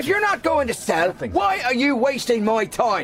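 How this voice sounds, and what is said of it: Angry shouting. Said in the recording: “Stop shouting”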